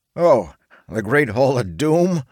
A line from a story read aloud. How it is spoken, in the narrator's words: Theodore chuckled